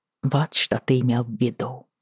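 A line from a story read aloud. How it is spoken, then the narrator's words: Quiet reply. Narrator (Russian): тихо отозвалась я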